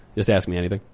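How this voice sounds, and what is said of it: Cranky Matt Walsh impression. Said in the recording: “my best Matt Walsh impression ... Super cranky”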